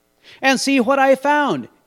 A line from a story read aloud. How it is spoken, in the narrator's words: exclaimed Charles